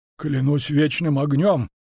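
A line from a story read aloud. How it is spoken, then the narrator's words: Hoarse wheeze. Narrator (Russian): просипел Андатор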